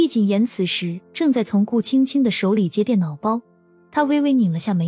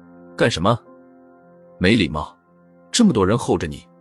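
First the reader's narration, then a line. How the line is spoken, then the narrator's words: Low scolding. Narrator (Chinese): 低声呵斥道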